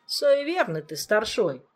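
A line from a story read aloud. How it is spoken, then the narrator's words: Scoffing. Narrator (Russian): хмыкнул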